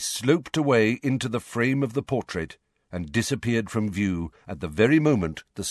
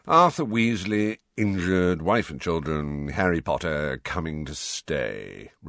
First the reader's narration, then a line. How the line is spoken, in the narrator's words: recited Phineas in a bored voice